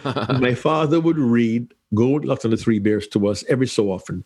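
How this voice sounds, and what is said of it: Jamaican accent. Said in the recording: “accent sounds a little odd. ... I am Jamaican by birth”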